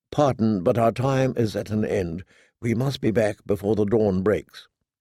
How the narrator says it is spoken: Sir Robar said gently

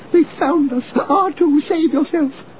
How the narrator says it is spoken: 3PO cried out

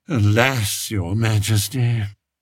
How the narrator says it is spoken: sighed Spittleworth

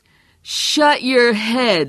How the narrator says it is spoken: he hollered back

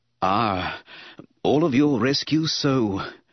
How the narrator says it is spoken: Palpatine gasped breathlessly

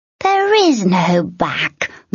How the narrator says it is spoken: the troll said with a sneer

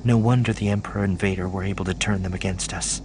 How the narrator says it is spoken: she murmured

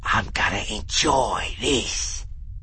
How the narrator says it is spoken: he whispered in Han's face

